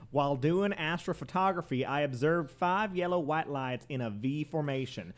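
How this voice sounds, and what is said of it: Put-on Southern US accent. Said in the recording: “I'm going to do it in a southern accent. ... That's the only one you're good at.”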